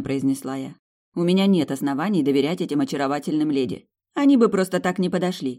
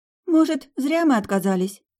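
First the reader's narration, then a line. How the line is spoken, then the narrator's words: Uncertain question. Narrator (Russian): неуверенно спросила она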